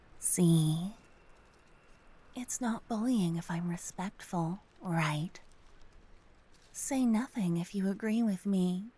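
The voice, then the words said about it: Whispering. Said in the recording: “whispering.”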